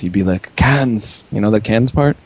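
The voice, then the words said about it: Mock Japanese accent. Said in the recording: “I'm just trying to do a Japanese accent.”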